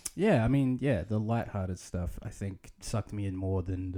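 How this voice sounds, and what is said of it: Usual voice. Nothing is said of it.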